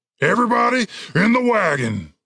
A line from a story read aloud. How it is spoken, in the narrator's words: shouted Cooper